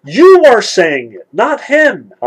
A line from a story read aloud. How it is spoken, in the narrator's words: Alyosha exclaimed ruefully